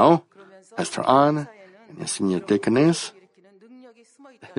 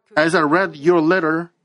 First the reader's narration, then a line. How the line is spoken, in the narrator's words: I cried